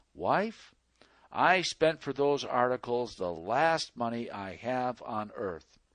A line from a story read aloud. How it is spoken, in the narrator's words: he calmly said